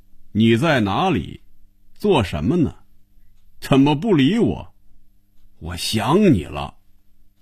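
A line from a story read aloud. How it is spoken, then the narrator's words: Loud reading aloud. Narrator (Chinese): 他 开始大声念着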